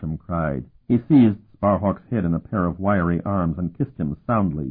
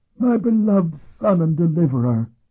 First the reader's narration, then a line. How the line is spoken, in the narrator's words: he cried with his rheumy eyes filled with tears